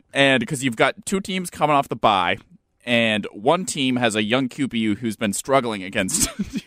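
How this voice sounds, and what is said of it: Philadelphia accent. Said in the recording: “Born and raised in Philly. ... Can you hear it in my accent? ... Yeah, I can hear it.”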